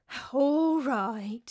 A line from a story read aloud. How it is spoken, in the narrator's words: said Nikaros, putting on a world-weary sigh